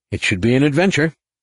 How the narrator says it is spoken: said, trying to keep his tone light

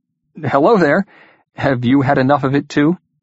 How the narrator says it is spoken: His invisible companion laughed

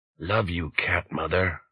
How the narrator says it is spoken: whispered the Panther Modern's link man

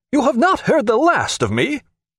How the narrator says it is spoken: he cried out

